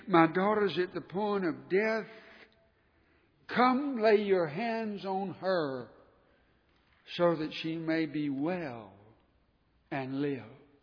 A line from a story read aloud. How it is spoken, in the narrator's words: begged him, saying